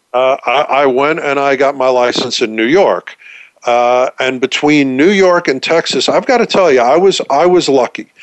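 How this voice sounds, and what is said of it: New York accent. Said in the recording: “I'm a New Yorker, as you can probably tell from the accent. I'm certainly not a Texan from this accent.”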